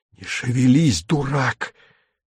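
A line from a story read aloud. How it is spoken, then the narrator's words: Hoarse hiss. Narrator (Russian): севшим голосом шипит Виктор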